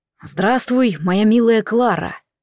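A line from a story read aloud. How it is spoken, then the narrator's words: Deep velvety greeting. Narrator (Russian): Глубоким, бархатистым голосом поприветствовал Себастьян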